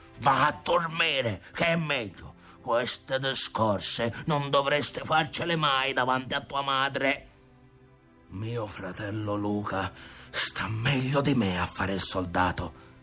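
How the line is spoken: Grumbling while leaving. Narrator (Italian): brontolò Ntoni nell'andarsene

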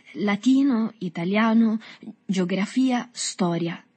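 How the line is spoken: Stammering. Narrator (Italian): balbettò Agostino

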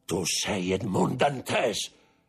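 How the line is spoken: Prosecutor shouting. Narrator (Italian): gridò il procuratore

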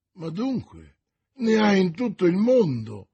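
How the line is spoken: Exclamation. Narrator (Italian): esclamò D'Artagnan

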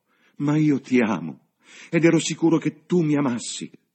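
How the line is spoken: Fervent devoted shout. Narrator (Italian): Il cervello di Cecil si riebbe dallo shock e, in un impeto di dedizione genuina, egli gridò

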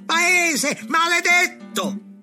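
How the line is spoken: Shouting. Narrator (Italian): gridando

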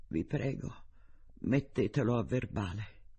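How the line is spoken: Lower voice. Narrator (Italian): aggiunse con voce più bassa

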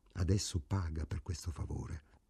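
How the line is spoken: Quiet voice. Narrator (Italian): Ida disse sottovoce

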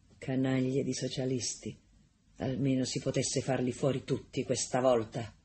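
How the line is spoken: Muttered through teeth. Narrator (Italian): Un signore mormorò fra i denti

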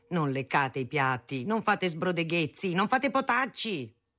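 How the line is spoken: Shout. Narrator (Italian): gridava

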